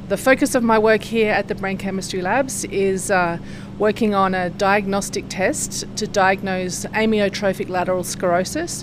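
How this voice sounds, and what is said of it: Australian accent. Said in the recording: “obviously I don't have a Jackson accent. I'm from Sydney, Australia.”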